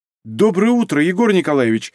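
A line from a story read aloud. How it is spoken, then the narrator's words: Exclamation. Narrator (Russian): воскликнула Софья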